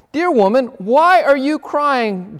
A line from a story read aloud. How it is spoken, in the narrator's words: Jesus asked her